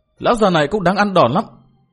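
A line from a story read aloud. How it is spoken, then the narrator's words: Resentful yelling. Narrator (Vietnamese): hậm hực phùng mồm trợn mép quát tháo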